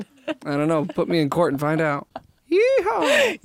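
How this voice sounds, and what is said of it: Put-on Southern American accent. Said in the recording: “Why would you have a southern accent?”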